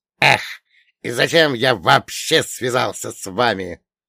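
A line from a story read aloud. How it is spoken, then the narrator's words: Amused grumble. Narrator (Russian): проворчал он, а в его голосе слышалось веселье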